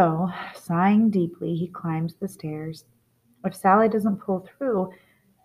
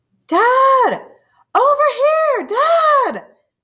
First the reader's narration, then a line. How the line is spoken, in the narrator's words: The soldier is shouting